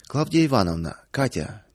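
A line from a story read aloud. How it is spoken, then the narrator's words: Somewhat solemn. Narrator (Russian): несколько торжественно начал Павел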